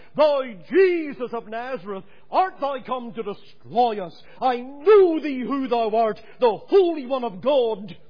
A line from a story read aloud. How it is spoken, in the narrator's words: this devil in the man cried out